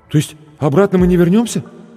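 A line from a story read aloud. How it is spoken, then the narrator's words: Frightened question. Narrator (Russian): испуганно спросил зеленоглазый блондин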